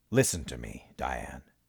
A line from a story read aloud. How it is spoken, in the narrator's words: Armin said, again in that calm, reasonable voice